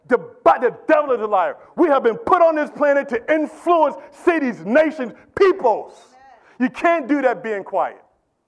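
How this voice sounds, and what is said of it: Yelling, loud passionate preaching. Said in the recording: “Why are you yelling?”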